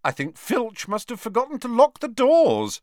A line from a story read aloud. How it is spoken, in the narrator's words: said Harry cheerfully